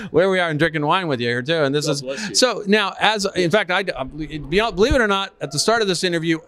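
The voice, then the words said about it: American accent. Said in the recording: “American accent ... American accent in Australia”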